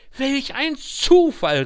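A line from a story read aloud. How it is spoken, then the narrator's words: Exclaimed. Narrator (German): rief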